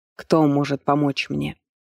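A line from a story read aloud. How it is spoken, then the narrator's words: Dejected question. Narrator (Russian): упавшим голосом спросил Хефер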